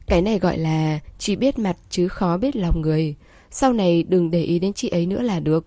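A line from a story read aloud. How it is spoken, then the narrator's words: Smiling. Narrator (Vietnamese): Trương Tư Ninh mỉm cười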